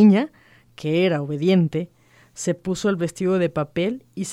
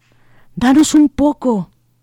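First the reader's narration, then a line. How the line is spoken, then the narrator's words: Little men pleading. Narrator (Spanish): Los hombrecillos suplicaron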